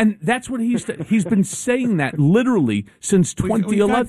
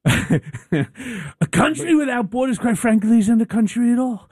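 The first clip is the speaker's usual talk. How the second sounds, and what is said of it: Donald Trump impression. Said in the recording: “do his voice”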